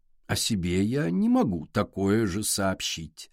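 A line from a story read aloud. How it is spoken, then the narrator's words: Sweet singsong. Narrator (Russian): сладким голосом пропела Адель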